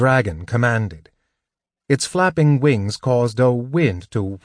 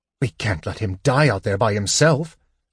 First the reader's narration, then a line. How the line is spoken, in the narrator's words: Sturm said harshly